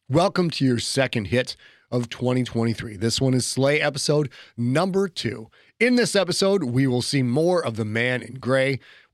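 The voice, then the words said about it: Deep congested voice from cold. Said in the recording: “As you may be able to tell by my voice, I am fighting a little bit of a cold, kind of a whole Barry White with mucus thing going on.”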